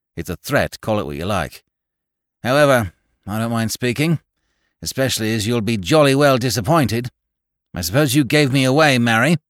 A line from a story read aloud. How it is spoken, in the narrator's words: said Goyles sullenly